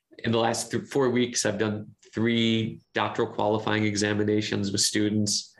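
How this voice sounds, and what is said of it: Slightly impeded strained voice. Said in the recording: “my voice is a bit impeded today”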